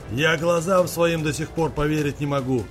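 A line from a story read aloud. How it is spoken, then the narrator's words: Irritated old man shouting. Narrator (Russian): Выкрикнул раздраженно дед Кузьма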